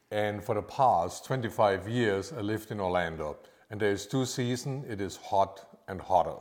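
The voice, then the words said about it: Austrian-accented English. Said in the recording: “I have a little bit of an accent ... Just a very tiny one, and it's not Georgia or Alabama ... I'm actually from Austria”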